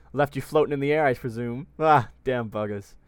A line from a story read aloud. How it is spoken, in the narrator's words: Hem said with a chuckle